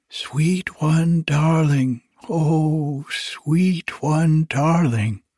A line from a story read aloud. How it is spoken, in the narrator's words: cried softly